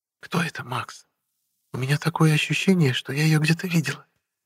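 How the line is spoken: Whisper. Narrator (Russian): шепотом сказала Даша

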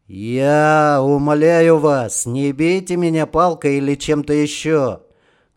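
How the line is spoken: Loud. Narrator (Russian): громко сказал Романов

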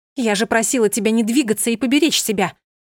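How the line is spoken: Shouting. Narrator (Russian): кричала Йована

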